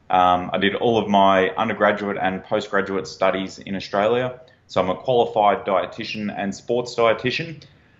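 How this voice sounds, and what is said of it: Australian accent. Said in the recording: “I'm an Australian national, if you can't tell from the accent.”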